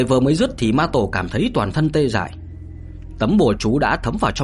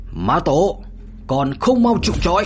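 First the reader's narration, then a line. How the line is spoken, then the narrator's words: Distant loud shout. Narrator (Vietnamese): từ xa hét lớn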